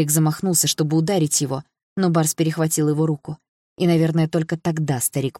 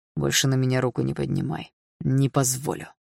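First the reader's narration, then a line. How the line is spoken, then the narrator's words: Through gritted teeth. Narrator (Russian): процедил сквозь зубы Барс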